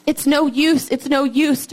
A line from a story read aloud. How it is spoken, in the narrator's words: Dirty cried